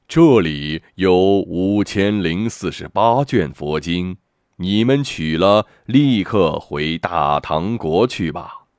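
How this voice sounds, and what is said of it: Solemn, dignified Buddha voice. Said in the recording (Chinese): “佛祖用庄严的声音说”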